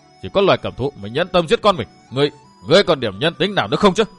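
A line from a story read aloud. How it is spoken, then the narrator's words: Manic laughter. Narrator (Vietnamese): Đông Hải Chân Quân bật cười cuồng dại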